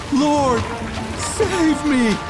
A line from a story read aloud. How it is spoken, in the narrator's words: he got afraid, and after starting to sink, he cried out